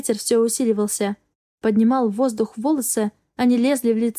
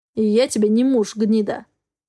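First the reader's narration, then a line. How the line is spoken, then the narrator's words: Growled. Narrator (Russian): рычал Хартман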